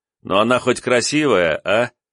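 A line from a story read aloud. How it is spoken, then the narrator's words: Question, then laughter. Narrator (Russian): спросил и сразу же рассмеялся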